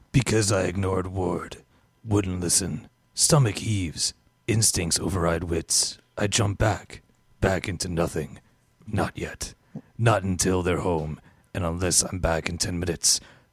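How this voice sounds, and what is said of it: Gruff deep hard-boiled noir voice. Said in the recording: “Why are you doing Rorschach? ... Gruff, that's deep voice. ... That was my hard-boiled noir voice.”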